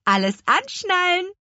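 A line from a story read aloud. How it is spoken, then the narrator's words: Cheerful call. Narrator (German): rief Petronella vergnügt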